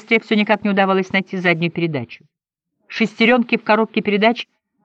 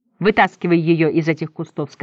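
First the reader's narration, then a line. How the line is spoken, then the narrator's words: Plain. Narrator (Russian): сказала мать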